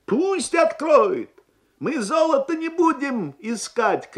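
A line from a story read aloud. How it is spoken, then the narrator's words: Shouted. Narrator (Russian): крикнул один из них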